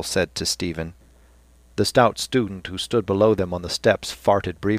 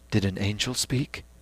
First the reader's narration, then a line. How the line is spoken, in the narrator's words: Dixon saying in a soft voice